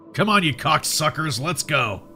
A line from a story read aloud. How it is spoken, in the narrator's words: bellowed